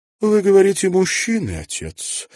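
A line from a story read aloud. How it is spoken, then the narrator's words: Thoughtful. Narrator (Russian): задумчиво проговорила она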